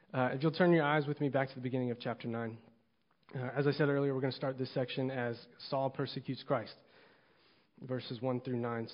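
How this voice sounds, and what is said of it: Hoarse, strained voice. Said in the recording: “All that singing, I lost my voice”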